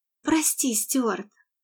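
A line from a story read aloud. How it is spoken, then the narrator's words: Girl's desperate mumble. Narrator (Russian): с отчаянием пробормотала девочка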